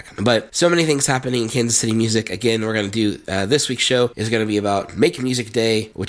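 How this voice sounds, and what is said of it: Voice off from a cold. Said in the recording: “dealing with a nice summer cold. Sorry if my voice is a little off. I've been on cough drops ... trying to get my voice back.”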